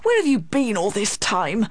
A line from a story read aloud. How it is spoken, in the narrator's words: he cried crossly